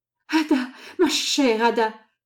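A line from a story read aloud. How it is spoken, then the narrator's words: Exclaimed. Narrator (French): s'écria-t-il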